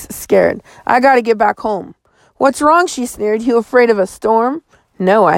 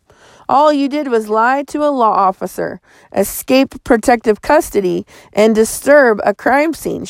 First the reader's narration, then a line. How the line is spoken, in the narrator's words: she said